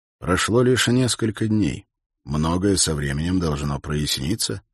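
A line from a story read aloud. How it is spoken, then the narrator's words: Plain. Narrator (Russian): сказал Холт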